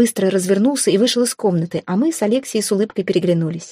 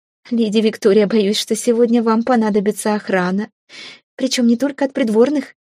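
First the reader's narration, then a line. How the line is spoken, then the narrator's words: Giggling. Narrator (Russian): хихикнула она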